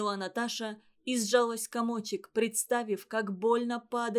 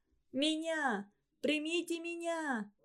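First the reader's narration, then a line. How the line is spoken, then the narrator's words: Ringing anguished shout, choking. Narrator (Russian): Звонко и надрывно закричала она, захлебываясь дымом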